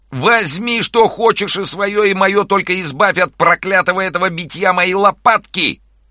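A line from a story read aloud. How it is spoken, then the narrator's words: Shouting in pain. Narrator (Russian): Тогда гостинник, которого хорошенько уже растолкла волшебная палка, закричал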